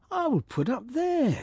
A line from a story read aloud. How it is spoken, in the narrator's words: he cried